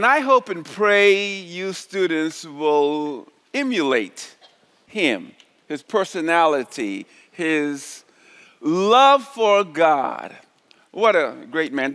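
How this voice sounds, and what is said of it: Charleston South Carolina island accent. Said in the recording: “I'm from Charleston, South Carolina originally, and I'm saying that because I have an accent. I talk like some of the people from the islands, man.”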